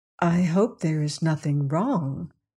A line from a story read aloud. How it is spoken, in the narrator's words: she murmured